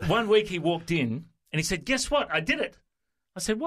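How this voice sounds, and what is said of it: Usual voice. Nothing is said of it.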